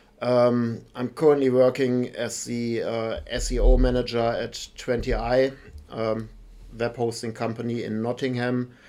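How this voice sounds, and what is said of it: German accent in English. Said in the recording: “As my accent gives away, I'm not native from the UK. I'm actually from Germany”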